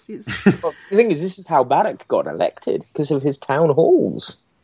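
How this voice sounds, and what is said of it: Lovely foreign accent. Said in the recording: “the lovely accent”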